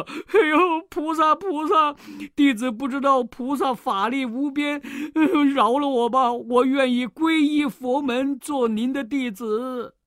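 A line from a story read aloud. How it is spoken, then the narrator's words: Crying, pleading. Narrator (Chinese): 红孩儿哭了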